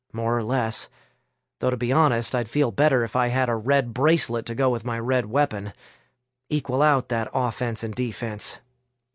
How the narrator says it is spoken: Vince whispered back

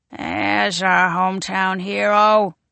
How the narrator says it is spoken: he croaks

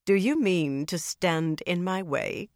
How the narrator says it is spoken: Cadswain asked, just as coldly

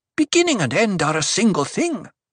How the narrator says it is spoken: Alia snapped

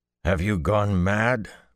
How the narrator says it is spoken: Perrin growled

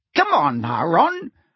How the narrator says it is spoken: said Angelina crossly

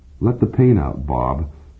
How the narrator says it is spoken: Siegfried says gently

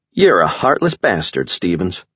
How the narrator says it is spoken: Jessica said, speaking in a smooth southern drawl

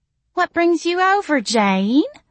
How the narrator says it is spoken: Missy cooed

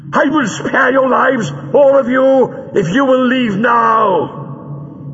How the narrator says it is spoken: Greel shouted from his hiding place

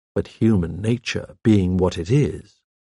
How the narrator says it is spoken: I murmured

